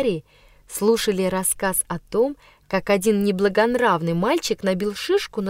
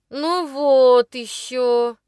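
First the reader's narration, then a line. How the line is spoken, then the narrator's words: Through gritted teeth. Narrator (Russian): процедил Жорж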